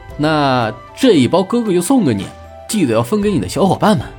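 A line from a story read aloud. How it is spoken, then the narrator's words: Amused. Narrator (Chinese): 朱熹心下好笑，说道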